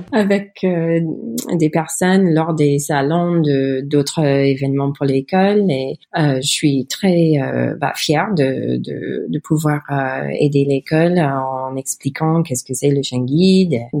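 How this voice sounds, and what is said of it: Non-native accent in French. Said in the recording (French): “mon horrible accent”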